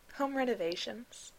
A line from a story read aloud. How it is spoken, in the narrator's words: Miles said